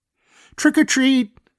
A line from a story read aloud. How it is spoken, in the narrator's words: hollered the kids